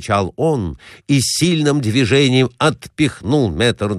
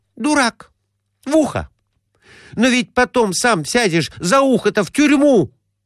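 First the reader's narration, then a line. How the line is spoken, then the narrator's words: Exclamation. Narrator (Russian): Воскликнула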